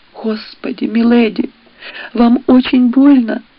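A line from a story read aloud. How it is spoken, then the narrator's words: Sobbing voice nearby. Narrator (Russian): раздался рядом прерываемый рыданиями голос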